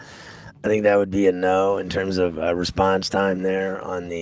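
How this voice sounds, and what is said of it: Usual voice. Nothing is said of it.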